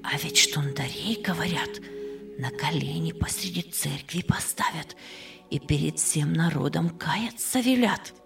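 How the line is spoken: Whisper. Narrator (Russian): шепнула она

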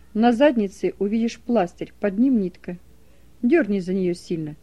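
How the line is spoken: Plain. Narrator (Russian): сказал он

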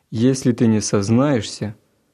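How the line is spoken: Menacing. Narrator (Russian): грозно продолжал собеседник

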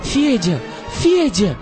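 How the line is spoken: Terrified shout. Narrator (Russian): в ужасе закричала она мальчику

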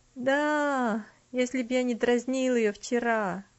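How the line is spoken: Dejected reply. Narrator (Russian): уныло ответил Артур

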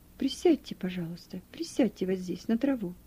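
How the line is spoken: Plain. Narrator (Russian): сказал незнакомцу

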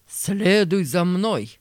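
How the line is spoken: Menacing commanding voice. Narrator (Russian): полковник, который привез меня, и грозным голосом говорит

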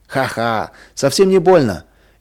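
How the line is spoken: Cheerful laugh. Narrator (Russian): весело засмеялся Вадим

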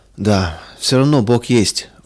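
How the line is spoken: Sigh. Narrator (Russian): вздохнул он

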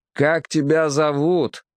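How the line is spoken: Captain shouting. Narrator (Russian): крикнул капитан

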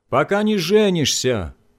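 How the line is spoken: Father shouting from another room. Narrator (Russian): закричал папа из гостиной

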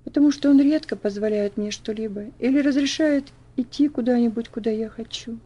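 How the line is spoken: Sigh. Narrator (Russian): вздохнула Элси

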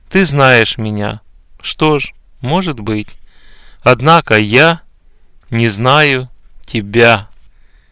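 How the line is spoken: Calm reply. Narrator (Russian): Господь спокойно ответит

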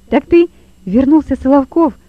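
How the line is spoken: Exclamation. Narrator (Russian): воскликнул Лева

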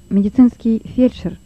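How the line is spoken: Plain. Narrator (Russian): сказал Лёва

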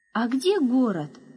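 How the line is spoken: Joyful curious question. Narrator (Russian): радостно заинтересовался Яша

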